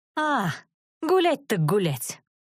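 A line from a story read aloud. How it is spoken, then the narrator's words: Growling. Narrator (Russian): Я зарычала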